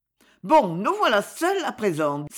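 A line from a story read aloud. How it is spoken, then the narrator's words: Exclaimed. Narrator (French): s'écria Ferdine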